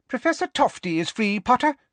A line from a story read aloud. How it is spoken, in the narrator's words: squeaked Professor Flitwick